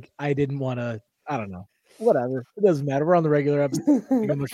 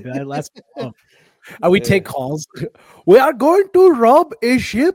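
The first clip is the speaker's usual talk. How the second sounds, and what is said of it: Put-on Somali accent, sounding Indian. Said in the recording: “Somali accent? That sounded way more Indian and Pakistan.”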